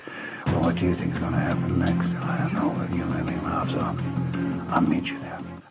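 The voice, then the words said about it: Whispered imitation of another person's voice. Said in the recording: “they're all whispering like that ... That was a good Liam Neeson impression”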